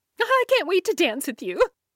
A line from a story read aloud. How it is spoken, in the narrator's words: exclaimed